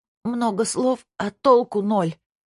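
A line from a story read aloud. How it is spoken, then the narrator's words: Moan. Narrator (Russian): простонала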